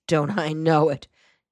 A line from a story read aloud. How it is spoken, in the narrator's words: Gerald Shore exclaimed